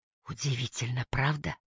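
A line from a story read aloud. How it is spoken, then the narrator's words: Whisper. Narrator (Russian): прошептала Дейдра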